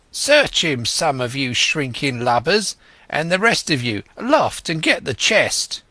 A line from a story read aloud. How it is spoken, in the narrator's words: he cried